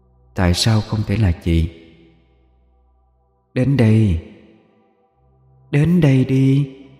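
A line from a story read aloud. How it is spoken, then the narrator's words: Eerie close whisper. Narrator (Vietnamese): Cái đầu người kia ghé sát vào mặt Tiến mà thì thầm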